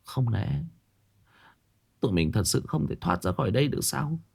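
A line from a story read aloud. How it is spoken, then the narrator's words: Quiet and weary. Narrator (Vietnamese): Lan nhỏ giọng mệt mỏi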